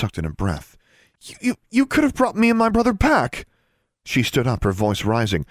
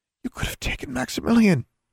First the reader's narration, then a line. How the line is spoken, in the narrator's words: she whispered